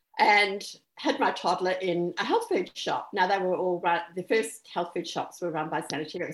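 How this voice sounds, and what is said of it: New Zealand accent. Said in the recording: “I'm actually originally from New Zealand, and you may hear that in the accent.”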